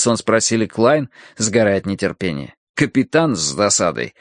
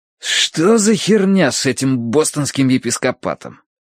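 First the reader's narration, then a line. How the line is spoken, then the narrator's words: Hiss. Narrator (Russian): прошипел Блад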